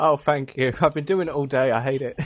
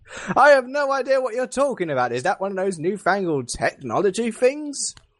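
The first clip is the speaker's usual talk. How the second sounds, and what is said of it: Put-on old-fashioned Victorian voice. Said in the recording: “do that voice”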